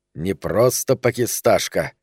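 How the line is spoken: Hissed. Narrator (Russian): прошипел Ляпсусу Пономарь

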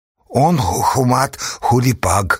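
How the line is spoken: Grumbled from the fire. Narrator (Russian): буркнул от костра Шакула

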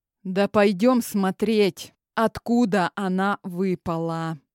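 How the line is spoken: Weary. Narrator (Russian): устало ответил бывший жених

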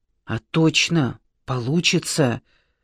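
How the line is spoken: Whisper. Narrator (Russian): прошептал Марат Андреевич

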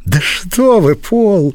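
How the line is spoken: Exclaimed. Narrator (Russian): воскликнула

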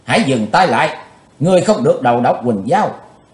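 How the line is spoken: Loud desperate shout. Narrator (Vietnamese): Chí Tôn đã toát mồ hôi, chàng hét lớn

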